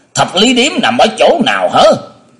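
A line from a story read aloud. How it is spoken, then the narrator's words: Deep booming voice. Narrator (Vietnamese): Gã đại hán cào lớn vẫn có cái giọng ồm ồm nói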